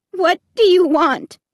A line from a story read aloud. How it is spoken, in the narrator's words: I repeated in a trembling voice